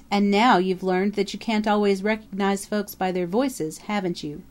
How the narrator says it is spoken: chuckled Mocker

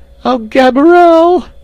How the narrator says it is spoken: screamed

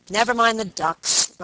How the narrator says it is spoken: Robert said impatiently

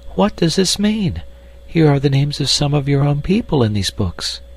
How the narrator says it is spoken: cried

